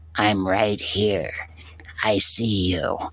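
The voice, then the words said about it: Put-on voice, totally different. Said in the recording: “that was just me doing a little voice ... That's pretty spot on, like totally different.”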